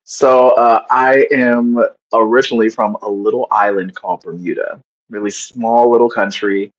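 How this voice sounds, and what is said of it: Californian West Coast American accent. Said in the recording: “I don't have a Bermudian accent ... I spent a lot of my childhood in California. And so that's the accent that ended up sticking with me”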